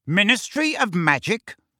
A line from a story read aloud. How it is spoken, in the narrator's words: bellowed Uncle Vernon